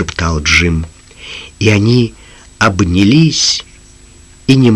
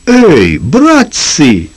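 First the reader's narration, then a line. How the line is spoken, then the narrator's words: Sudden stunned exclamation. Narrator (Russian): вдруг ошеломленно воскликнул Шарло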